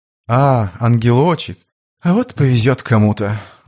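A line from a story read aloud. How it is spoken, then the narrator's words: Mock sigh. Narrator (Russian): наигранно вздохнул Слива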